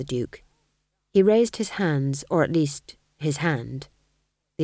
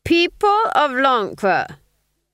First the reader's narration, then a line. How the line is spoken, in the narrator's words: he cried